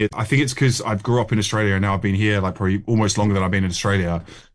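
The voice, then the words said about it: Lingering Australian accent. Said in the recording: “You still got that twinge, though. You've still got the accent, haven't you? It's the classic. Yeah. It's the nose. It's the homes. It's the O sound, isn't it?”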